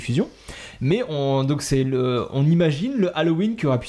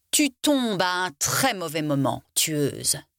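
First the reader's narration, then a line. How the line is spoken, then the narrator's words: Vampire's hiss. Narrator (French): siffla le vampire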